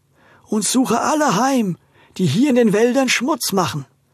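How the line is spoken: Hollow voice. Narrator (German): sprach mit hohler Stimme

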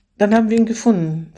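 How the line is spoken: Finished with a sigh. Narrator (German): vollendete sie mit einem Seufzer

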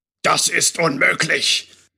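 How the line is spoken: Loud thundering male voice. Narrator (German): donnerte wieder die laute Männerstimme, die wohl dem obersten Wichtigtuer der Drachengilde oder wie sich die Typen auch nannten gehörte

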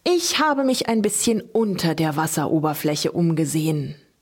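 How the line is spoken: Continuing explanation. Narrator (German): setzte der Bänderoog seine Ausführungen fort

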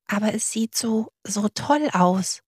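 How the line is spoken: Whisper. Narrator (German): flüsterte Butzel

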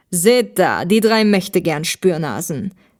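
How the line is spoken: Mocking male voice. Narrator (German): spottete der Mann

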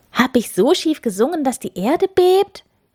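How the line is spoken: Calling out. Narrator (German): rief Schorsch

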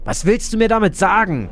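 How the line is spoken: Sudden call into darkness. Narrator (German): rief sie urplötzlich, ohne nachzudenken, in die Dunkelheit

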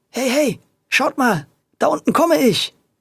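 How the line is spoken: Excited shout. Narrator (German): rief er aufgeregt

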